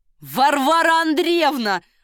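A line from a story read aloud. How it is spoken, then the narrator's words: Shouted. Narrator (Russian): закричал Ахиллес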